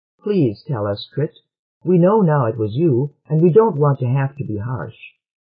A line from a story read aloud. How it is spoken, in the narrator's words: saying more kindly